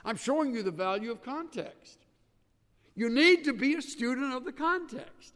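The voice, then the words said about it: Yelling preacher. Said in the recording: “Why am I yelling? Because I feel a sense of urgency about this.”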